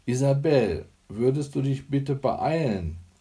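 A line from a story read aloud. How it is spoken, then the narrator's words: Calling through a door. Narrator (German): rief Hanne Gellert gegen die Badezimmertür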